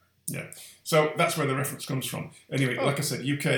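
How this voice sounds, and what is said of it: Usual voice. Nothing is said of it.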